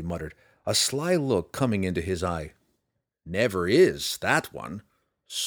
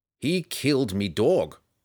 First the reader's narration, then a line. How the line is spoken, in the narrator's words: Roddy growled